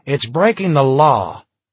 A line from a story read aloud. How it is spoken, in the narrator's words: Tom replied sharply